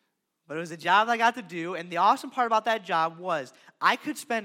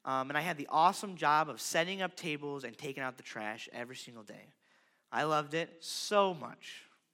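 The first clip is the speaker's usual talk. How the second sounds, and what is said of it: Sarcastic tone. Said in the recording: “That was sarcastic.”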